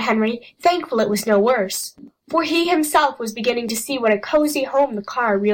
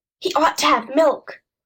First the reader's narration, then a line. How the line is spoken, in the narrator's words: said Jess quietly to Henry